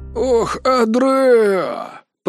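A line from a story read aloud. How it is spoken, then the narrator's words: Creaky voice. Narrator (Russian): проскрипел Лаир Орин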